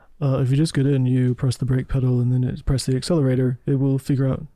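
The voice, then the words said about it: Elon Musk impression. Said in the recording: “great Elon Musk impression”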